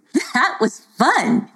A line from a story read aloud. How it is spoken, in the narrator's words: she laughed